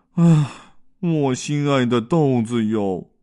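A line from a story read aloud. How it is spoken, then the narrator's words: Sorrowful sigh. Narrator (Chinese): 紫花豆愁眉苦脸的叹道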